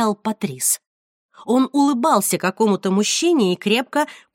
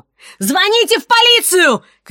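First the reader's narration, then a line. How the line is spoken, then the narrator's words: Shouting. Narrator (Russian): кричала она прохожим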